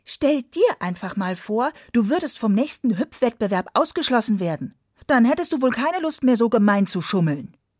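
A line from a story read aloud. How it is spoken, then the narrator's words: Angry snapping. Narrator (German): Ärgerlich schnauzte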